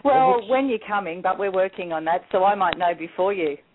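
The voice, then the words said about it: Australian accent. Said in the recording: “I love that accent”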